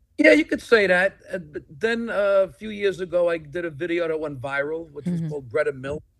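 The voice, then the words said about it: Brooklyn New York accent. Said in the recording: “I like how you said Nassau with an R ... your accent and your Brooklyn attitude”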